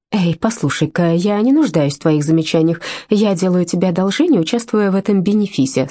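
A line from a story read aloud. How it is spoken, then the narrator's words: Plain. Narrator (Russian): сказала Джерри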